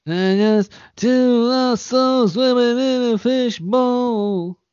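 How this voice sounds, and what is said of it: Imitates another person's singing voice. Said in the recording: “my impression of Bob Dylan doing Pink Floyd”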